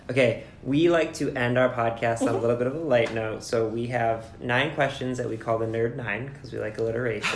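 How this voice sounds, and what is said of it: Hoarse, strained voice. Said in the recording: “I'm losing my voice,”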